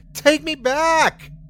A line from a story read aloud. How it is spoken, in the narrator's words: I screamed